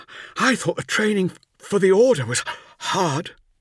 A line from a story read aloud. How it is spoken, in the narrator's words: gasped Nemiel